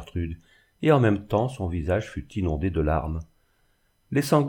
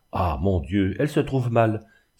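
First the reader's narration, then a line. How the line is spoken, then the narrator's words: Exclaimed. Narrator (French): s'écria mademoiselle Sélénie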